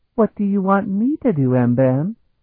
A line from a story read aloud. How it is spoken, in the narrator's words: Danae asked sweetly